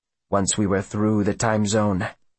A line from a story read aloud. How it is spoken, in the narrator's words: he murmurs